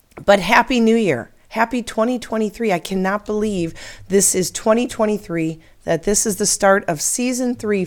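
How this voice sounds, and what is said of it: Slightly hoarse, croaky voice. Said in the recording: “little froggy in my throat ... I've gotten sick and had to deal with losing my voice ... starting to get back on the track to a healthy sounding me”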